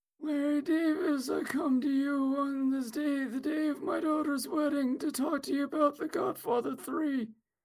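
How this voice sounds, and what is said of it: Raspy mob-boss movie character voice. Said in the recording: “my Vito Corleone impression ... it just sounds like you caught COVID.”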